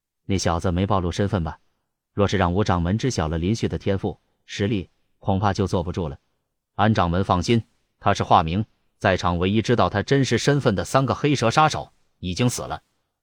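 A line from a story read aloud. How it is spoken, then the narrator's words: Deep grave voice. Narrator (Chinese): 安无涯 沉声说道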